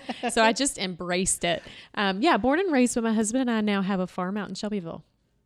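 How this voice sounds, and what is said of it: Southern American accent. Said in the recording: “I couldn't get rid of this Southern accent”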